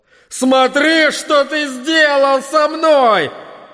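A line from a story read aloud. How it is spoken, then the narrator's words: Father shouting. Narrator (Russian): отец кричал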